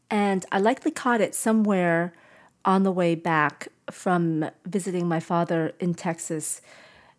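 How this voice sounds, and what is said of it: Voice sounds ill, recovering. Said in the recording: “I'm getting over COVID, as you can probably tell from my voice.”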